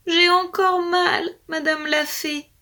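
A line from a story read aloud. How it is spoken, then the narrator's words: Whimpering animal. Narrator (French): pleurnichait l'animal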